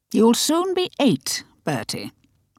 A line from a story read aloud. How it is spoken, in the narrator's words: he said